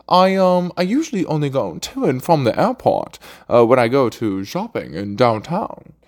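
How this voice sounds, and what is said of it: Put-on posh British accent. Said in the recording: “British accent ... we're fucking posh”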